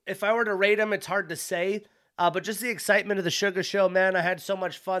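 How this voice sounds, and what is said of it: Hoarse, worn-out voice. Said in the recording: “my voice is gone ... yelling”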